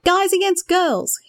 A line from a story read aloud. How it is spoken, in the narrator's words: yelled out